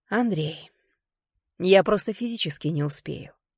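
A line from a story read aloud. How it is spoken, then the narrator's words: Soft and reasonable. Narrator (Russian): сказала я мягко и рассудительно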